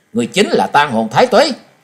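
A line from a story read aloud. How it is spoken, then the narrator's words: Shouting. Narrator (Vietnamese): Trần Lâm hét lên một tiếng nói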